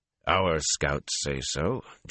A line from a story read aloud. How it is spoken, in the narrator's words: Geron said calmly